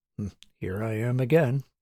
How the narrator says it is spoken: he muttered to himself

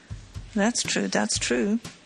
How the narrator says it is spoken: muttered the magistrate, who was obviously interested

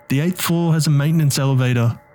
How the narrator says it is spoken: Tony shouted

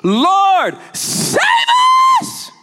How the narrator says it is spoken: The disciples shouting

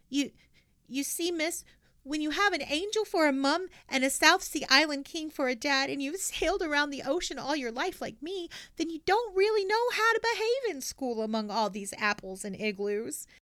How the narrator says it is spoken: said in a trembling voice

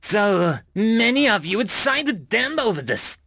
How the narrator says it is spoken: Gerudium screeched

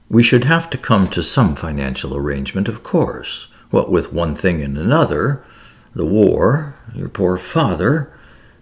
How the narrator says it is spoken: Her mother looked at her reproachfully and murmured

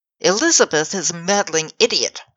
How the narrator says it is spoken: I snapped

